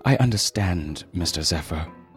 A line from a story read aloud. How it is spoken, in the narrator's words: Paul said, his voice breaking